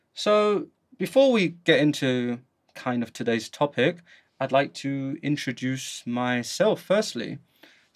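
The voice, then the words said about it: London English accent. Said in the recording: “as you can hear from my accent, I am from the UK, specifically London”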